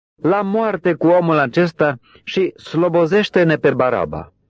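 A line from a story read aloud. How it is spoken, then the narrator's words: Crowd shouting in unison. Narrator (Romanian): Ei au strigat cu toții într-un glas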